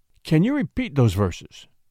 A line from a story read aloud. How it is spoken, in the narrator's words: asked the king eagerly